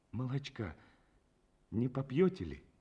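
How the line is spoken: Weak-voiced wife asking. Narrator (Russian): Его жена спросила Петельникова еще неокрепшим голосом

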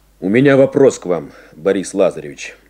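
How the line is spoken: Plain. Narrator (Russian): сказал он

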